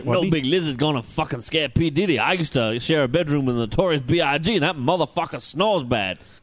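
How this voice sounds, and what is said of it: Rapper-style imitation of another person. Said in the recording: “my rap impersonation of P. Diddy”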